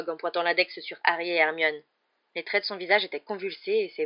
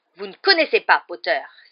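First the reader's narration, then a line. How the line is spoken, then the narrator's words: Exclaimed. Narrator (French): s'écria Rogue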